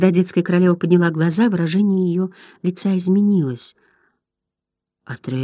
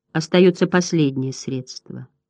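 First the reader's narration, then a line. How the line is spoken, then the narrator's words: Plain. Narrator (Russian): сказала она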